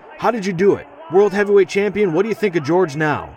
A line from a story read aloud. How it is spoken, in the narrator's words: a reporter claws his way to the crowd and yells at me